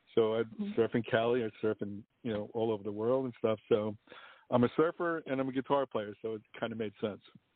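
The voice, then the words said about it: New York accent. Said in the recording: “my accent, New York.”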